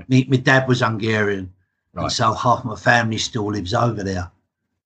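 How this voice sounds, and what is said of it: English accent. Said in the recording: “as you can tell by my accent, I'm as English can be”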